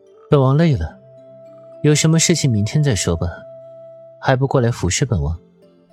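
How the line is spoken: Calm, leisurely. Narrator (Chinese): 楚留臣淡淡道，极是悠然

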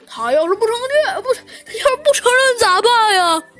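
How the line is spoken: Anxious, near tears. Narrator (Chinese): 黄猴急得都要哭出来了

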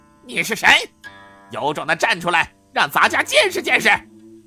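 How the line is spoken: Shrill voice. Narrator (Chinese): 他尖声道

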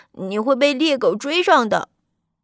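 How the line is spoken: Mocking teasing. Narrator (Chinese): 哥哥们取笑他说

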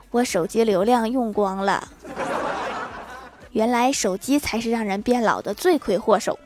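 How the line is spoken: With a faint smile. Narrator (Chinese): 欢喜淡淡一笑说

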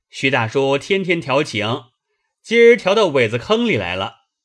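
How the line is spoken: Laughing. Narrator (Chinese): 贾蓉笑道

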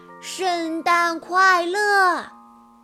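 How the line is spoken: Loud call through cupped hands. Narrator (Chinese): 他把手拢在嘴边，大声地说

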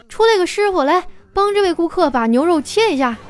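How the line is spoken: Shouting toward kitchen. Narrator (Chinese): 服务员冲厨房里喊

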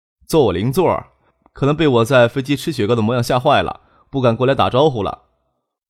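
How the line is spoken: Light laugh. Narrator (Chinese): 张克笑了笑，对许思说

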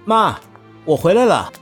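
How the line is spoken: Calling out. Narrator (Chinese): 爱慕就喊

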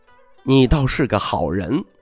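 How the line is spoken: Soft young man. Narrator (Chinese): 年轻师叔祖轻声道

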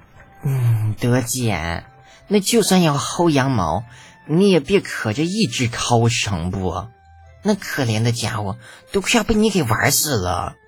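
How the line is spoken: Leisurely sigh. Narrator (Chinese): 李承前悠悠的叹了口气

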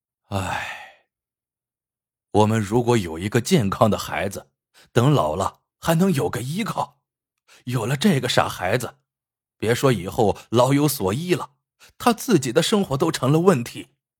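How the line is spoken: Sighing. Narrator (Chinese): 栾高叹了口气，说道

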